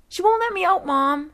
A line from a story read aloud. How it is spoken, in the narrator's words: I shouted